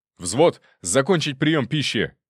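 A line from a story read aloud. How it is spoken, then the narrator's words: Sharp shout. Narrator (Russian): резко крикнул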